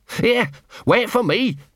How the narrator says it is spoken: barked Gaspode

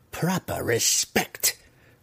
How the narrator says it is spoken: Malice muttered under her breath

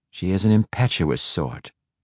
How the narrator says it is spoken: Quenthal said dryly

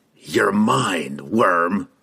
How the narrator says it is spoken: he snarled under his breath

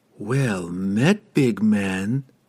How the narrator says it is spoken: the woman purred

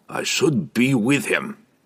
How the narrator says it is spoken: said gruffly

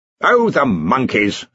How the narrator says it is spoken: snapped Ridcully

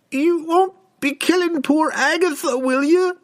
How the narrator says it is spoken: she pleaded

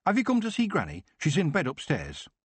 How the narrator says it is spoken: Sid said urgently

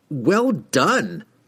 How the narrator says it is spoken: cried the wizard

